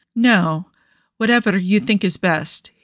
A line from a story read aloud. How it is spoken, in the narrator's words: managed to say evenly